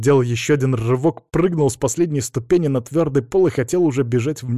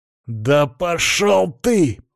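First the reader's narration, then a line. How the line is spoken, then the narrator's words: Growling. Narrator (Russian): прорычал Антон в ответ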